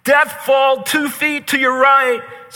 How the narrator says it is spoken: the voice of his teammates who would shout back to him

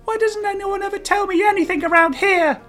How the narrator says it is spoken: Jay asked, whining slightly

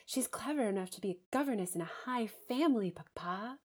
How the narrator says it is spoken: cried Rosamond

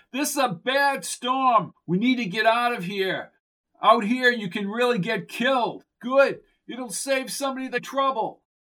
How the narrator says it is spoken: yelled through the torrent

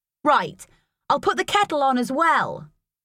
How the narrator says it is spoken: shouted, slamming the kitchen cupboards and bashing the kettle around

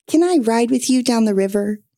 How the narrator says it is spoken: Monkey asked

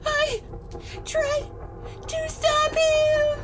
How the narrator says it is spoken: She gasped out, taking big, heaving breaths between each word

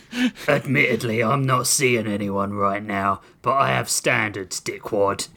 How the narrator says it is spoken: Grissom sneered

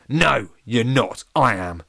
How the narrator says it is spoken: snarled Lemonface

